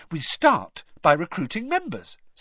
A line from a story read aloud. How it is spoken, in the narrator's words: said happily